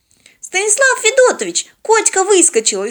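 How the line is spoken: Frightened exclamation. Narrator (Russian): испуганно воскликнула Полина

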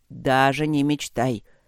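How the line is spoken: Warning growl. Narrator (Russian): предупредительно рыкнул Гейб

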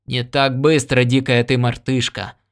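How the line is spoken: Grumbling. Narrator (Russian): проворчал Ян Дорак

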